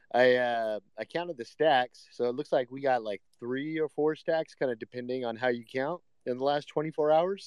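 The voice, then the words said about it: Sick-sounding voice. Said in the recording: “I am sick, so you guys might be able to hear it in my voice”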